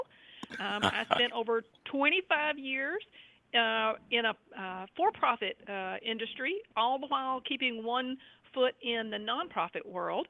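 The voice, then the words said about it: Southern US accent. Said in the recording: “you can tell from my accent I'm a native of North Carolina, so I'm a Southern Belle.”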